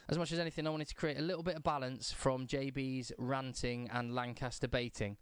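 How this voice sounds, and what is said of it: Slightly hoarse, strained voice. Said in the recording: “I've lost my voice a little bit from shouting last night.”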